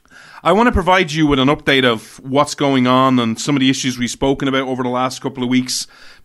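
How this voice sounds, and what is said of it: Irish accent. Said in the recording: “this sexy Irish accent”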